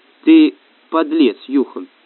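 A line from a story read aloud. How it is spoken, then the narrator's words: Calm. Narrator (Russian): спокойно сказал Сева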